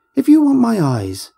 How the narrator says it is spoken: she shrieked

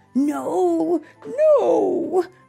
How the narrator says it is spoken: they cried

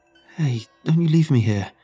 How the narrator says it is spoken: he cried out, fear in his eyes

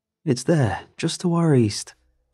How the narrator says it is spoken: called out

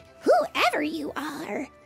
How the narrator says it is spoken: they cried

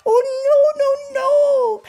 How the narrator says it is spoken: cried Clover

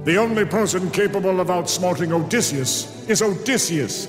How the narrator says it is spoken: Agamemnon roared

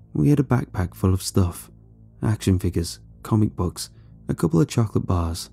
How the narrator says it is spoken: he said quietly

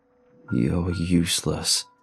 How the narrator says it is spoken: he growled, rolling his tongue

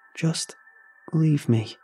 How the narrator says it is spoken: she said in a weak, sad voice

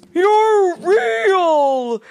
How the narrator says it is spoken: He shouted joyfully

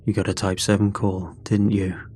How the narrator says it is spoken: he said quietly

